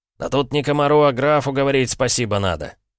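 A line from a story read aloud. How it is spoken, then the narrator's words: Snort from back rows. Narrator (Russian): хмыкнул кто-то из задних рядов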